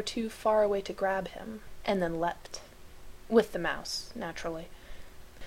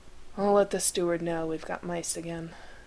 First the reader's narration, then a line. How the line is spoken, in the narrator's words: said on a sigh